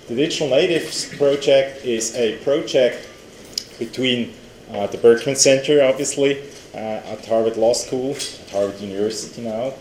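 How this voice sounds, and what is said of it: European accent. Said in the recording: “You can hear that from my accent, ... that I'm European.”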